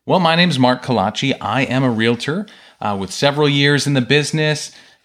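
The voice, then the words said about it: Smooth movie announcer voice. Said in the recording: “that movie announcer voice ... his smooth, jazzy voice”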